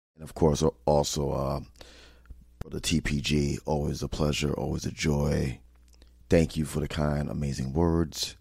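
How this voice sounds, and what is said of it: Hoarse, raspy voice. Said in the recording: “As you can hear my voice, that's because it's very hoarse and raspy, because I was shouting out a lot and singing to the top of my lungs”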